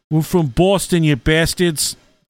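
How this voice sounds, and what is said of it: Attempted Boston accent. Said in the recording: “I don't know if I have a good Boston accent or not. ... That's close. ... Yeah, I like it.”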